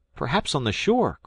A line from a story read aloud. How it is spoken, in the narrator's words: cried Jack